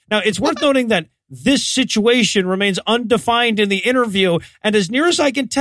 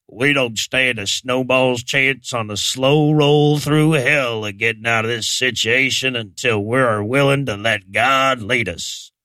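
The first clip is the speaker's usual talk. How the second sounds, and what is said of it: Imitates another person's voice. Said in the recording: “you cannot say this quote without doing the voice, so I'm going to do the voice”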